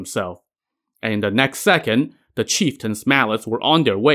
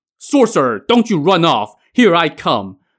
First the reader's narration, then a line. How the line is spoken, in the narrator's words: The chieftain roared